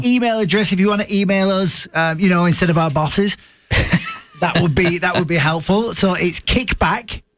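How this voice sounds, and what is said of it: Speaker's own noticeable accent. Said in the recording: “my accent”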